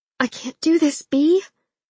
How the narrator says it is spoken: she whimpered

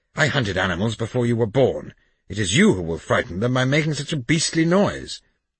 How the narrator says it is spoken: I whispered furiously

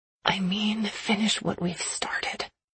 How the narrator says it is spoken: I whisper, realizing we've drawn the attention of a few family members

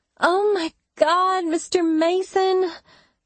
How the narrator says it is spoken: Minka whined

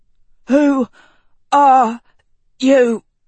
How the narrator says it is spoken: Chadwick had choked

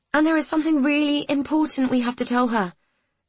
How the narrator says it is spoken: Amy added eagerly

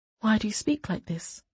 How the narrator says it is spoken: Sabran said quietly

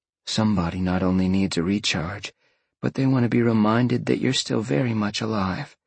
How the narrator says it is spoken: Jolene murmured back between kisses

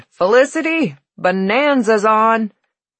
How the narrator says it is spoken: She bellowed

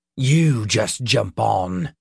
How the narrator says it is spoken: growled

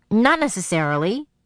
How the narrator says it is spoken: she answered impatiently

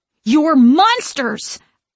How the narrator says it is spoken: I scream

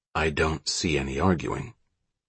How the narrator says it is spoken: Sam whispered

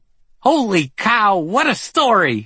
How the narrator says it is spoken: he exclaimed, as if I were the Lindbergh baby all grown up and had arrived with my wife, Amelia Earhart

